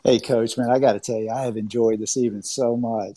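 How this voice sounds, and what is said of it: Slight Southern American accent. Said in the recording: “I got a little bit of a Southern accent.”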